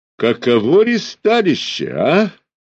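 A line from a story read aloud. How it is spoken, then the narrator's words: Delighted, snide question. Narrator (Russian): восторженно вместе с тем ехидно спросил он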